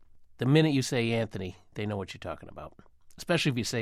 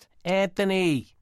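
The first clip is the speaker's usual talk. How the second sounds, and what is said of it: Yelled call imitating the commercial. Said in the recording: “Mary Fiumara leaning out of a second-story window on Powers Court, yelling, "Anth..." ... do an impression ... in that tone ... in that tone of voice”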